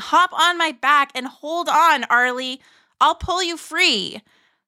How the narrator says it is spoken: Harlan shouting

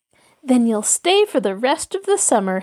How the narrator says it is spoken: Helen laughed

